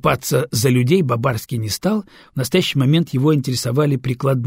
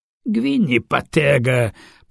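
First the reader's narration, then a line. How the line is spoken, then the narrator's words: Theatrical groan. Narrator (Russian): простонал Альвара, театрально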